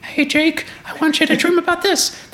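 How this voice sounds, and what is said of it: Terrible cartoon mouse voice impression. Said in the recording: “my terrible impression of Mickey”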